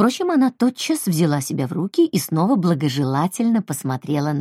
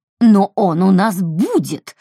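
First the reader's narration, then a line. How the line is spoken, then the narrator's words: Spluttering bark. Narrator (Russian): рявкнула Брит Мари, брызнув слюной на слове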